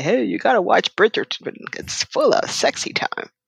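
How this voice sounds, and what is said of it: Imitates another person's voice. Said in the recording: “that's a good impression of me”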